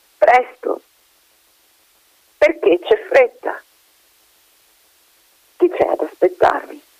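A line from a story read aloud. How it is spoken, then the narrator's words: Voice broken by tears. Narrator (Italian): rispose benvenuto con la voce come rotta dal pianto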